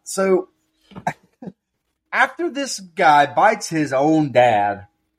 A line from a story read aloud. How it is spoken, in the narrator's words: I yelled